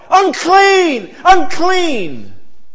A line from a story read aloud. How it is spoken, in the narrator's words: yell